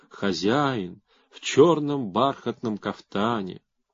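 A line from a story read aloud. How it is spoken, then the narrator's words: Duet singing, soft chorus. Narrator (Russian): заливались два голоса, и хор мягко повторял за ними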